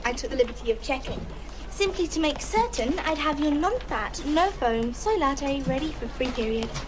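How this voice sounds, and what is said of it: Noticeable foreign accent. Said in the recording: “like the accent. It's sweet.”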